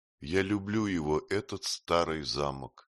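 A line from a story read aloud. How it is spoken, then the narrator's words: Calm. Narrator (Russian): спокойно сказала Артруда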